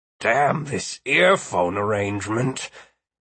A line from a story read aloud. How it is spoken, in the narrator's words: he grumbled